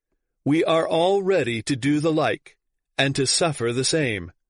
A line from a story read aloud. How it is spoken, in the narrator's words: many among the multitude exclaimed at once